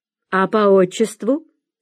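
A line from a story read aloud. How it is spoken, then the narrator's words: Stern. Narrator (Russian): строго спросила теща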